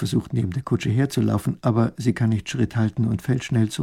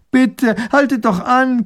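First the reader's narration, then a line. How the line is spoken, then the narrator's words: Panting. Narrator (German): keucht sie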